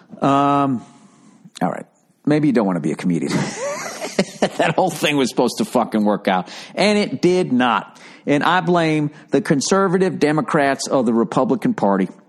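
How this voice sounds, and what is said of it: Put-on Southern accent. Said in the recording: “Why do I keep talking in a Southern accent?”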